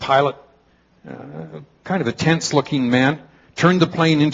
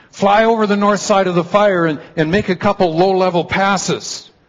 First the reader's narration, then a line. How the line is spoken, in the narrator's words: shouted over the noise of the plane